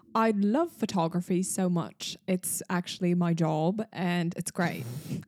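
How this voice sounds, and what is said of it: Put-on accent. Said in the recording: “Talk about something you're passionate about in a different accent.”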